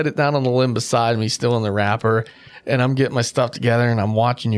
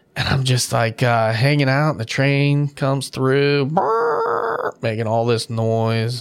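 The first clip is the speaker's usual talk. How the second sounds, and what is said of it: Imitates a train's rumbling noise. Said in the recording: “that was a great impression of a train. ... That's exactly how it sounded.”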